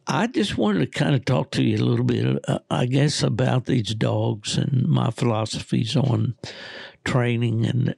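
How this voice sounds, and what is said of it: Hoarse, worn-out voice. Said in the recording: “my voice is shot”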